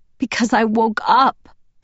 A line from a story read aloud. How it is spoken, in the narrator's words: I wailed, sobbing into his throat